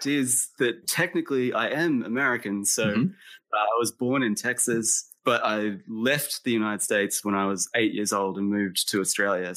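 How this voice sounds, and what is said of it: Non-American sounding accent. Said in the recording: “I don't sound American.”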